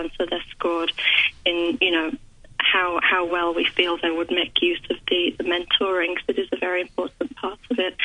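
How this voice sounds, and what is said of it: West Yorkshire accent with Australian influence. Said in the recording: “I'm originally from West Yorkshire, but I've been in Melbourne about 15 years. ... It swings in and out. ... it's a beautiful accent.”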